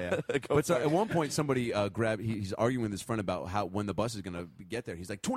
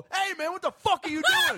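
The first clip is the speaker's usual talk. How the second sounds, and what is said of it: Yelling. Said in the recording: “Now you're yelling.”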